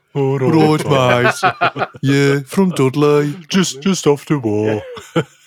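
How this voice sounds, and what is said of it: Put-on Brummie accent. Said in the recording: “The Brummy Space Marines.”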